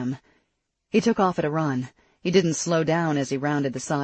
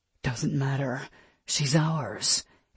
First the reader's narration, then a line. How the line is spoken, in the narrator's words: his wolf snarled